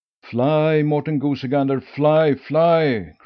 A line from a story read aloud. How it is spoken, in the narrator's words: cried Akka, for she knew that otherwise the swans would pull out every feather the Goosey Gander had